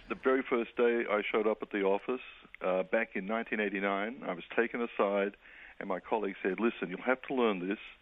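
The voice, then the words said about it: Australian accent. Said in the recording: “my little accent. ... From Australia,”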